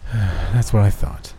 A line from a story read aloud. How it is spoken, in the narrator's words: the blonde guy said with a sigh